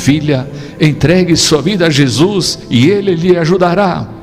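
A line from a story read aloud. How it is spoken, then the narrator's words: Desperate father pleading. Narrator (Portuguese): O pai ficou desesperado e suplicou novamente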